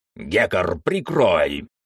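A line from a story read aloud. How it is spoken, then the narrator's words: Barking shout. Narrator (Russian): рявкнул он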